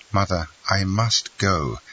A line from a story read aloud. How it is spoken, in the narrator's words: said Albert, in a firm, calm voice